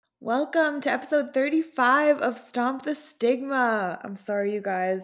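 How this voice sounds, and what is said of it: Hoarse, strained voice. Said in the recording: “I'm losing my voice a little bit this week”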